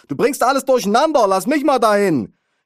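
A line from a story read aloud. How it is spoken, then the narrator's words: Mother bellowing. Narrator (German): brüllte meine Mutter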